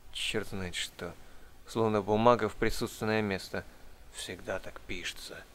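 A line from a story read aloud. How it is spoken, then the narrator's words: Grumbled. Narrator (Russian): буркнул хозяин дома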